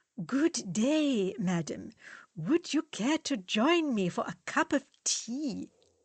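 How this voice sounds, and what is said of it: Exaggerated English accent. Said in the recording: “He clears his throat and says in an exaggerated English accent,”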